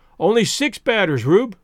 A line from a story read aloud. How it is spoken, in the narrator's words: called out Spears